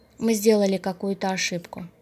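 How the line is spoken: Thoughtful. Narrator (Russian): Задумчиво он сказал

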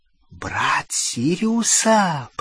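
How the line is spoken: Whisper. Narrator (Russian): прошептала она

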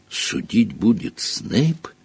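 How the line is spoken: Indistinct mumble, mouth full. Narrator (Russian): невнятно пробормотал он, выплевывая забившуюся в рот грязь

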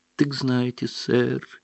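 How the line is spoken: Sad. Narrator (Russian): печально проговорил эльф

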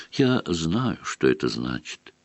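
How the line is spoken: Quiet. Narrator (Russian): тихо проговорила она

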